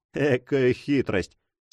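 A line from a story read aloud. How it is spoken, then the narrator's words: Laughing objection. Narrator (Russian): смеясь, возразил Пьер Легран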